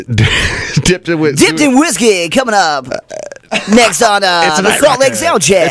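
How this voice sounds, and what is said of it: Put-on radio announcer voice. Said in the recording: “That was my radio voice ... I don't know if that's a good radio voice ... That's my Night Rocker voice”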